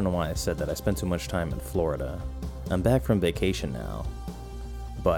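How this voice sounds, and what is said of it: Usual voice. Nothing is said of it.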